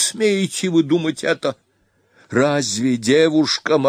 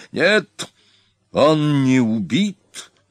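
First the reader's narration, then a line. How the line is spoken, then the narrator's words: Loud, menacing cry. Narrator (Russian): грозно и громко вскричал Хелхаль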